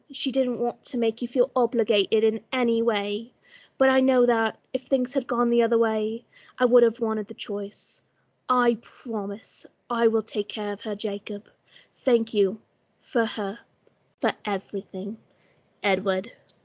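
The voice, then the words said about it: Put-on British accent, drifting Cockney. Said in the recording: “I try to do a British accent, but I get too Cockney with it ... I was gonna say Cockney, but then it just turned into Ron Weasley at the end ... I just wanted it to be fancy, and British was the fanciest I could get”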